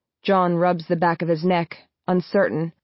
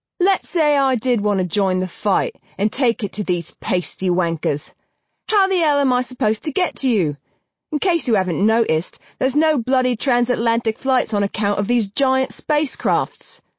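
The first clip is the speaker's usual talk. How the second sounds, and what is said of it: Thick English accent. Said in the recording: “speaking with a thick English accent”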